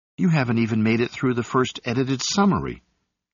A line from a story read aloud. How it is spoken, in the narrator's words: Gaylet said